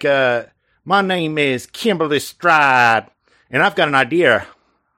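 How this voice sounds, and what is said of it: British woman faking Southern accent. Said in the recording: “a British woman trying to affect it like a Southern accent ... distressingly dips accurate to the voice ... it's very good”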